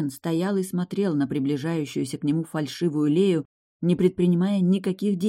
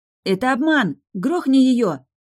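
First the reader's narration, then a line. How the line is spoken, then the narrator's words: Shouting. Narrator (Russian): крикнула я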